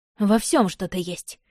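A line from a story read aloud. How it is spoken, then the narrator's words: Scoffing. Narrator (Russian): хмыкнула я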